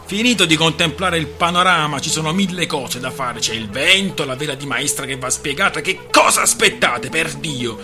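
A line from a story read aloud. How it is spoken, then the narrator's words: Shouted. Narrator (Italian): Il primo ufficiale gridò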